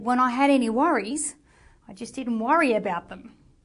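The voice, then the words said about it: Thick put-on Australian accent. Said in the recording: “I'm going to put on my thick Australian accent for this.”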